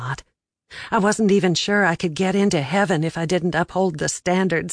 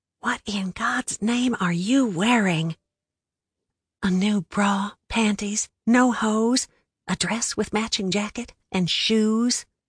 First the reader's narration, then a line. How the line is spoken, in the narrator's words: I whispered back